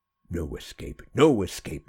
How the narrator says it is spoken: sneered Daniela

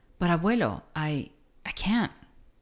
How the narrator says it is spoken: stammered Neto

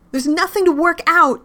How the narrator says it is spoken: she screams

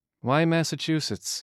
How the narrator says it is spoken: asked Lisa

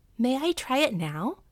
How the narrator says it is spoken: asked eagerly

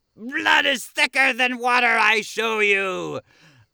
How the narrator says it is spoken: Pietro bursts off the couch and scares the poop out of the kids, yelling

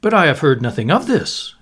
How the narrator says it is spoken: he exclaimed

